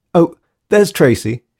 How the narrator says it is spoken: she exclaimed

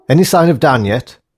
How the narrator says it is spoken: snapped Grace

